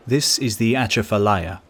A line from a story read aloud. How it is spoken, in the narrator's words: replied the proprietor